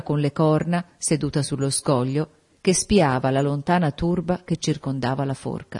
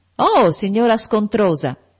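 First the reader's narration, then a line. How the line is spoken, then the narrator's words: Shouted. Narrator (Italian): gridò John Reed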